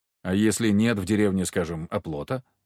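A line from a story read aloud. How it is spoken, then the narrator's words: Plain question. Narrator (Russian): спросил я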